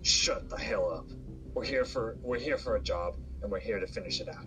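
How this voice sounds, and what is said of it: Raspy character voice. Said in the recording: “a more raspy voice”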